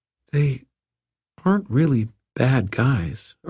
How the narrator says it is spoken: Erwin said slowly

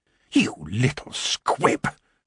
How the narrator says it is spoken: she hissed

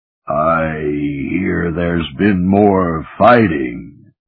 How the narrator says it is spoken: Katha John rumbled in deep underwater Anglic

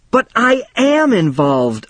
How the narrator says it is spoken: I shouted

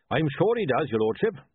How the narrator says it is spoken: said Goodmanchin cheerfully

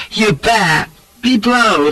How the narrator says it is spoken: cackling laughter and cries of

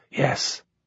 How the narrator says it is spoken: I whispered back

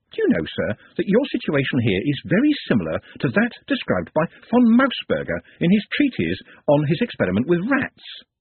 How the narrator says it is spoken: Nut said cheerfully

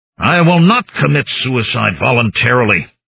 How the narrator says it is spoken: said harshly

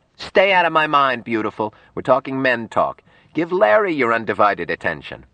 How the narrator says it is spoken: Her husband called out

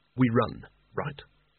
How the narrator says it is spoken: whispered Rincewind to Nigel

